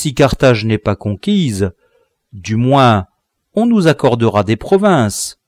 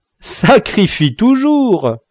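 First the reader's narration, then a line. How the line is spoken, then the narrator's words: Laughing. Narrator (French): dit Spendius en riant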